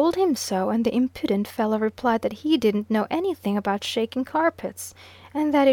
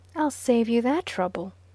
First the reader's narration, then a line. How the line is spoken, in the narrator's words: I said a little warmly